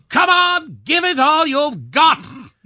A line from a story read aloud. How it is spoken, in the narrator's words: Camilla bellowed